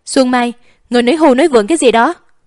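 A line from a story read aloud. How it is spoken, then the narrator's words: Angry shout. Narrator (Vietnamese): Tích Ngầm nhịn không được mà giận dữ hét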